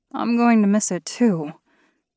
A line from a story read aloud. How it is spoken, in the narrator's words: sighed